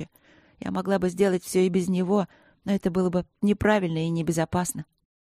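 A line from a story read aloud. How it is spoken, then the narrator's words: Quiet, warning. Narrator (Russian): сказала я тихо и предупреждающе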